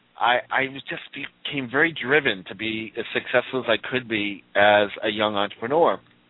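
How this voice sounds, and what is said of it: Slight Boston accent. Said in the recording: “I'm from Boston, so you'll hear a little accent come out of me while I'm talking.”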